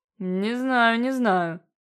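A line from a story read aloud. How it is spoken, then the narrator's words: Pleased, drawn-out drawl. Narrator (Russian): протянул король, в душе весьма довольный незамысловатым комплиментом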